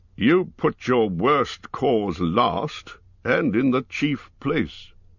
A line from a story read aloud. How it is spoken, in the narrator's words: Thorin answered